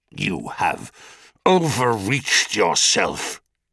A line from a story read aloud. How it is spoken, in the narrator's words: hissed Uranus